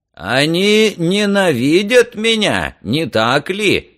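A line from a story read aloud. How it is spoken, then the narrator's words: Loud question, judge. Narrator (Russian): громко спросил судья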